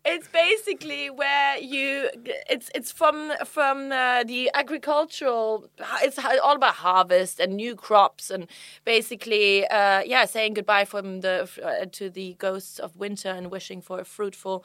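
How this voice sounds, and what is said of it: Strong German accent. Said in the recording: “you've lost your German accent? ... have you lost your German accent? I think it's pretty damn strong”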